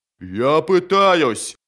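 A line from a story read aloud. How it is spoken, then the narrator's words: Roared. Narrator (Russian): проревел Джот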